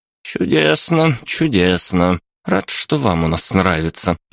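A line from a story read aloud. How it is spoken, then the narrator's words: Mumbled. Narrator (Russian): пробормотал доктор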